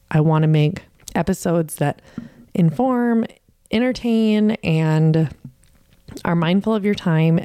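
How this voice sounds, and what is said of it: Shaking, nervous voice. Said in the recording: “my voice is shaking because I hate this part”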